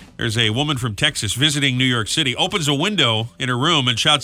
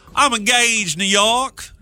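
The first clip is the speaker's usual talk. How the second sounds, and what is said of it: Put-on Southern US accent. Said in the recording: “Let me try that again in a southern accent.”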